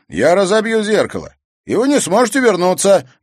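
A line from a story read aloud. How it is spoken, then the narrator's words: Loud young man. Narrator (Russian): громко ответил парень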